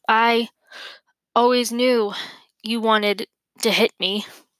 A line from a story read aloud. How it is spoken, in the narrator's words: Morrie gasped